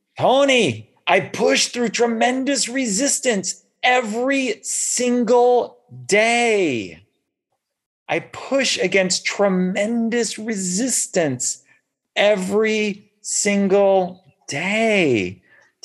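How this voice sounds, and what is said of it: Thick Austrian accent impression. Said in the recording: “in some, you know, thick, like Austrian accent or something, I'm doing like my best Arnold Schwarzenegger interpretation”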